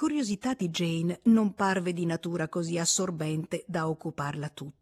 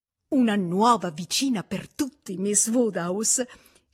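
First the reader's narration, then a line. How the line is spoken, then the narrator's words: Festive exclamation. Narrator (Italian): esclamò festosamente la signorina Bates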